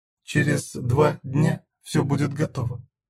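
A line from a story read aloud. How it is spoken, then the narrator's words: Whisper. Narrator (Russian): шептала Зена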